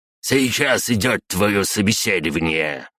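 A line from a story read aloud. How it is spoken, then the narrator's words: Barked. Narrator (Russian): рявкнул мужик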